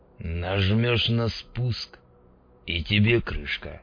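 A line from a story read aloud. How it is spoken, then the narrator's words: Hoarse, tipsy man's voice. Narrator (Russian): сказал мужичок с Мосинкой хриплым, подпитым голосом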